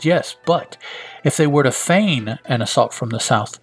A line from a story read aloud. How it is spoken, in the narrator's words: she says